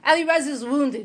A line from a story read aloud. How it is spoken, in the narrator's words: she said